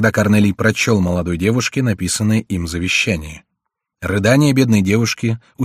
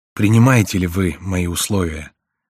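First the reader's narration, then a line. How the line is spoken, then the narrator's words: Sad smiling question. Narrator (Russian): спросил узник, грустно улыбаясь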